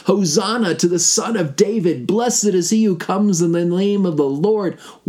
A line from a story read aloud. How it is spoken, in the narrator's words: they shout out